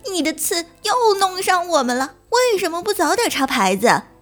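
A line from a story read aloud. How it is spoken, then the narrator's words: Group shouting. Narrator (Chinese): 他们喊着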